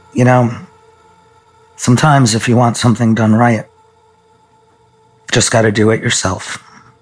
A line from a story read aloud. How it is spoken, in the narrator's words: He stared at me gravely and said